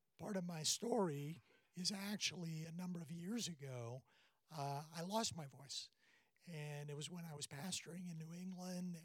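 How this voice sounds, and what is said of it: Raspy, hoarse voice. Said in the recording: “My voice is a little raspy today. It's a little Marlon Brando-ish.”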